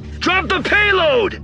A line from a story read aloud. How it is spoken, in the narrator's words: Poe shouted in her ear